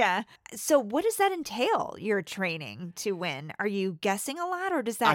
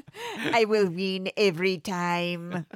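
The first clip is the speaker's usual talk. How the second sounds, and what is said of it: Exaggerated evil Russian accent. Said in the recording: “give Jessica evil Russian accent ... Can we give her an evil ... Russian?”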